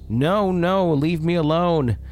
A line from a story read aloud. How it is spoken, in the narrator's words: him screaming at the top of his lungs